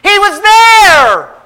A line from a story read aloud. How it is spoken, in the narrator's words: woman cried out